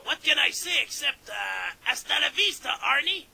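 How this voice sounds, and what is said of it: French-accented imitation of another person. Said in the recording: “good impression of Mr. Chrétien ... perfect imitation ... French accent”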